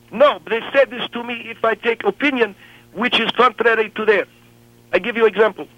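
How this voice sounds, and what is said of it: Thick Middle Eastern accent. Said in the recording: “I have not only foreign accent, but I have Middle East accent ... I speak this way, with this thick accent”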